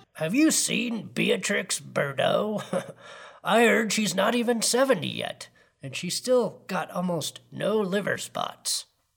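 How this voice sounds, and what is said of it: Lecherous old man character voice. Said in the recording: “my horny old man impression”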